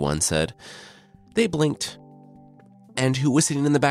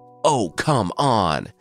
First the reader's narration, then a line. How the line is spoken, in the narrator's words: the brothers yelled in unison